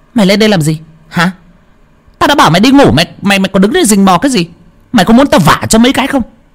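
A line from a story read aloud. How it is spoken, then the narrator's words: Angry woman's hiss. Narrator (Vietnamese): Cô Thao nhíu mày, bước hẳn ra ngoài cửa điện mà rít lên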